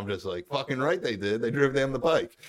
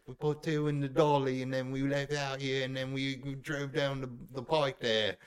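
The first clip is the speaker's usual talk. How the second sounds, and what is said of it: Put-on Cockney British accent. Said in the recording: “your sweet British accent ... It was more Cockney than British”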